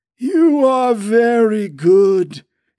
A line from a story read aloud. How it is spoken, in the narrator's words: exclaimed the voice